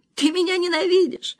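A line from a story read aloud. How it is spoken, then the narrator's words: Sobbing. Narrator (Russian): всхлипывала она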